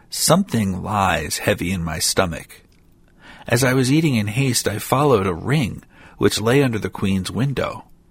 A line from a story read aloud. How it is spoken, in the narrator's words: one said in a pitiful tone